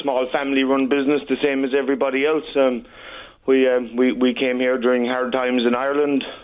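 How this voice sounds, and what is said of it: Noticeable foreign accent. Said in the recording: “Listen to that accent. I love it.”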